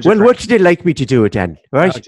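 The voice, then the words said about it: Put-on Irish accent. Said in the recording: “I can do it in a whole other accent ... Actually, it's really good. It's really good, but I'm like, okay, we just went from Australian to, you know, Irish.”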